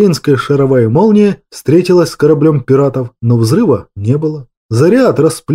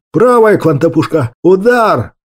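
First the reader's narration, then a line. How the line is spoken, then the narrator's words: Furious yell. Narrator (Russian): Яростно заорал Торис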